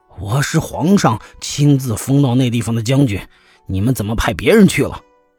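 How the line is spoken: Shocked, angry protest. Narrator (Chinese): 副将军惊怒交加……愤愤地争辩说

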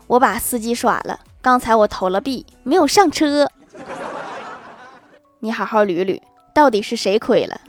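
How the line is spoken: Smug, suppressing laughter. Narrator (Chinese): 我哥强忍住笑，得意地说

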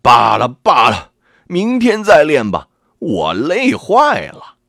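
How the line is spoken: Frustrated shout. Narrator (Chinese): 连一招也没学会，程咬金气得嚷道

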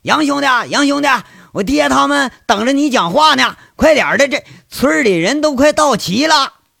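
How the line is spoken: Loud call. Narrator (Chinese): 锯子大声叫

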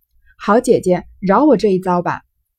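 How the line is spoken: Laughing. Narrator (Chinese): 湘云笑道

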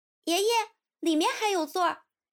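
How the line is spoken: Young girl calling out. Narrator (Chinese): 一个和他年纪相仿的女孩子边走边对后面叫

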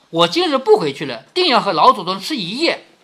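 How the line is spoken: Laughing. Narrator (Chinese): 尤氏笑着说

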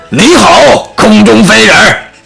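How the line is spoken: Shouting loudly. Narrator (Chinese): 傻料傻大声喊

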